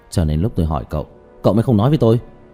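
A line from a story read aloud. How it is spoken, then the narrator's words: Angry. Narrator (Vietnamese): Hắn tức giận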